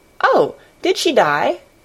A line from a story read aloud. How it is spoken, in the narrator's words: she exclaimed, quite without meaning to